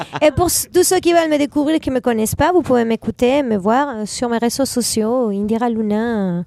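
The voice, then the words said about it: Latino accent in French. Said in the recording (French): “j'adore cet accent latino”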